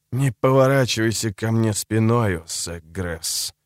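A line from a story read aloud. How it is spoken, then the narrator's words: Hissed. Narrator (Russian): прошипел он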